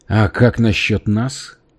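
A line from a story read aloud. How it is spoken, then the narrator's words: Calm. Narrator (Russian): спокойно добавил Макитерик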